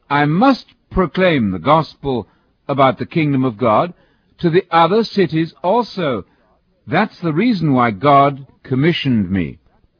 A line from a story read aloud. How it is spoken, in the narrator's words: Jesus exclaimed